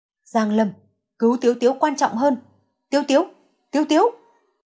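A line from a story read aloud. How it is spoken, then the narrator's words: Loud calling. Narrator (Vietnamese): Hàn Trạch Vũ lớn tiếng gọi Giang Lâm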